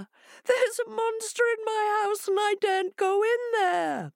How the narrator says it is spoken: cried Hare

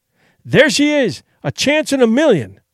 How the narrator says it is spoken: he cried

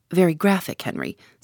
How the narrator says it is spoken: said Tommy

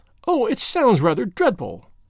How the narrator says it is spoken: cried the girl

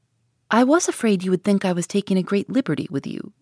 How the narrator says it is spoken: said she

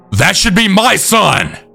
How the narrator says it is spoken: Abby was then screaming

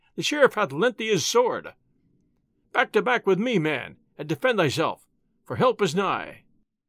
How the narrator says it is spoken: he cried

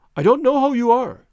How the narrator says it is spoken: he cried

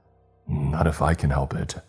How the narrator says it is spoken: I growled

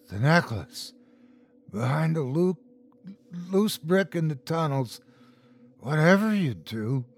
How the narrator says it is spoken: rasped

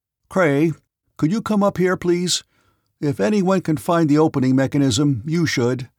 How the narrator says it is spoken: he called out

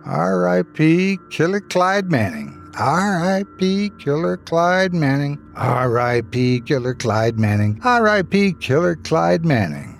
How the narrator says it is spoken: she said over and over, laughing and mocking us for being cowards

